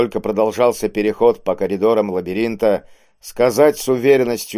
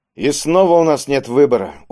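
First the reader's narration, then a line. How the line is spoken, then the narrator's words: Dejected voice. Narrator (Russian): упавшим голосом произнес Кийск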